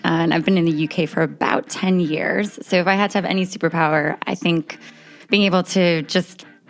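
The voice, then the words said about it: American accent. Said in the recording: “As you can tell by my accent, I am an American that's living abroad”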